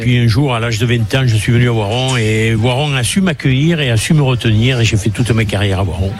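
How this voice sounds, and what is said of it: Southern French accent. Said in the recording (French): “l'accent de ... du sud de la France ... cet accent de fou là”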